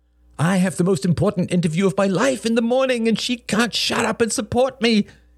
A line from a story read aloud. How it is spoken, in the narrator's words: cried in infinite self-pity